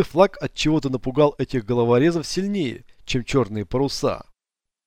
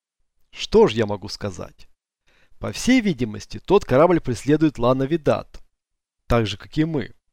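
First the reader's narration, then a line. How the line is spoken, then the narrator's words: Calm Frenchman's reply. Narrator (Russian): спокойно ответил француз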